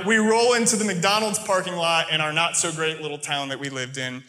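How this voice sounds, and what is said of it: American accent. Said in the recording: “my American accent, my normal speech”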